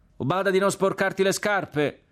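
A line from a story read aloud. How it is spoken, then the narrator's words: Shouted. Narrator (Italian): gridò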